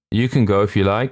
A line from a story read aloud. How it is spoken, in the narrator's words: said one of the others with a faint laugh